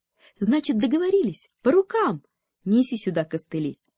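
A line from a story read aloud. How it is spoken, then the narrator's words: Cheerful. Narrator (Russian): предложила весело спица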